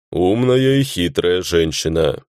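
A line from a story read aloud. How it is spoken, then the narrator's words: Rough-voiced orc musing aloud. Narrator (Russian): мыслями вслух поделился орк с грубым голосом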